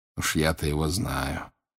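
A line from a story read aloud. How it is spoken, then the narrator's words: Quiet. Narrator (Russian): тихо сказал он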